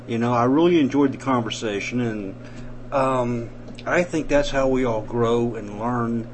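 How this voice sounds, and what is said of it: Southern US accent. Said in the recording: “I love having a southern accent.”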